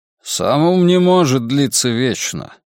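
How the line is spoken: Grumbled. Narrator (Russian): проворчал командор Браунинг, глава личной охраны великого инквизитора

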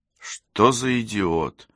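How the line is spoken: Sighing. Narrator (Russian): вздохнула Софи

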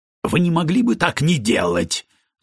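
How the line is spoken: Angry hiss. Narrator (Russian): злобно прошипел Камерон

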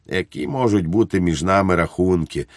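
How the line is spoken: Gently. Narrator (Ukrainian): лагідно сказав Благнік

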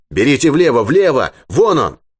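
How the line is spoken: Shouted. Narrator (Russian): Юрковский крикнул

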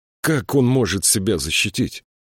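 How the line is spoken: Sighing. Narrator (Russian): Ситки вздохнул

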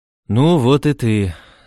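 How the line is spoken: Gentle, affectionate. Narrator (Russian): сказал Патрик ласково

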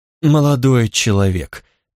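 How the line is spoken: Sighing. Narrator (Russian): оценщик вздохнул

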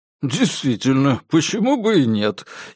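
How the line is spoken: Giggle. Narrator (Russian): хихикнул Диккенс

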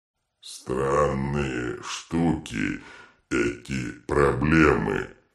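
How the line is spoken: Thoughtful drawl. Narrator (Russian): задумчиво протянул детрит

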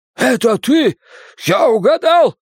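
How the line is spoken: Terrified shout. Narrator (Russian): в ужасе прокричал чей-то голос

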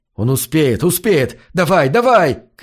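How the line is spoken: Very loud shouting. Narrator (Russian): кричал я, пока у меня самого уши не заболели

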